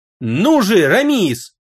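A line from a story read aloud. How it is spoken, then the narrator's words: Sharp angry shout. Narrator (Russian): резко и зло крикнул Элмет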